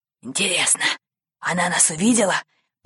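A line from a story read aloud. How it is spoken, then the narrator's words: Whisper. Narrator (Russian): прошептал капитан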